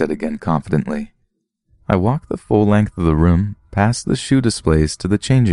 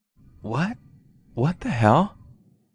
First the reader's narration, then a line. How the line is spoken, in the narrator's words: she uttered under her breath